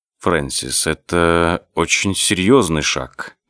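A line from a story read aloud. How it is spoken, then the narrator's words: Gentle. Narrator (Russian): мягко заметил Дези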